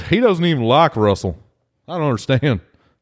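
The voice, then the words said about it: Put-on Texan accent. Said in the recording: “I don't know why they have that accent. ... Seahawks fans in Texas?”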